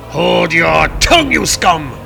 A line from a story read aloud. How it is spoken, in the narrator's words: roared Thor